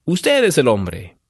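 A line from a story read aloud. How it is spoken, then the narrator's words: Exclamation. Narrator (Spanish): exclamó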